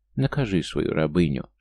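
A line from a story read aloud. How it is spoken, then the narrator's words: Whispered in ear. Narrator (Russian): шептала она мне на ухо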